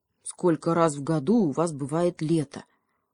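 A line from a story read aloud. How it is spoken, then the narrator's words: Plain. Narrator (Russian): спросил ежик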